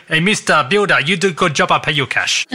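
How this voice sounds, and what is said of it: Weak put-on Italian accent, drifting Asian. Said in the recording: “That accent, not so much. ... your Italian, it's getting a bit Asian”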